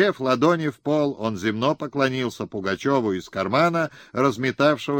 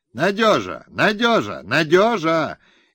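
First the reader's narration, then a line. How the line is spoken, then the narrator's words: Excited shout. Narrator (Russian): мужичок с азартом закричал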